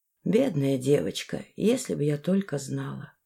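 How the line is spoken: Quiet. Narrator (Russian): тихо сказала Зензен

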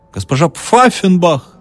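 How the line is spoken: Hussar yelling. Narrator (Russian): зря завопил гусар

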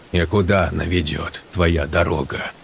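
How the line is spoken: Gloomy question. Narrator (Russian): мрачно спросил Сергей

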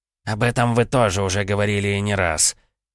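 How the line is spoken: Irritated, through gritted teeth. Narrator (Russian): уже не скрывая раздражения, процедил Виктор

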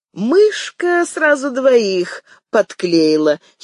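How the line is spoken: Young woman giggling. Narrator (Russian): хихикнула одна из девиц

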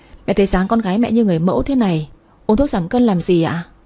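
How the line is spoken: Smiling, teasing. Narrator (Vietnamese): Tôi mỉm cười trêu lại mẹ

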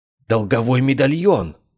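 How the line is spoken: Exclaimed. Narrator (Russian): воскликнул Кайден

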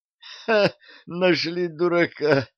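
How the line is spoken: Groan. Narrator (Russian): простонал Арчи

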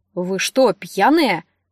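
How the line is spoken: Offended question. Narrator (Russian): обиженно вопросил он

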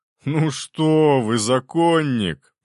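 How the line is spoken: Laughing. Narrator (Russian): принц рассмеялся

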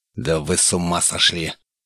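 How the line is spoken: Hissed. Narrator (Russian): зашипел Дейтуш

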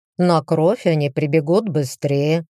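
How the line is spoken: Careless, bored tone. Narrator (Russian): тем же небрежным, скучающим тоном заявил Люциус

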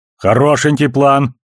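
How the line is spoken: Loud reply. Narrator (Russian): громко отозвался Амос

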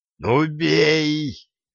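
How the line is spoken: Roaring in chorus. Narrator (Russian): Хором взревели пылающий Мирополк и девчонка-чародейка

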